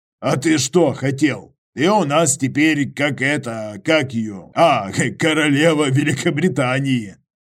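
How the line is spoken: Mocking laugh. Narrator (Russian): Иваныч хохотнул

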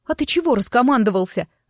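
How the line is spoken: Sniffling snap. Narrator (Russian): огрызнулась, хлюпая носом

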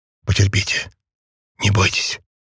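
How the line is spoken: Encouraging whisper. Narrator (Russian): стараясь прибодрить ее, и прошептал

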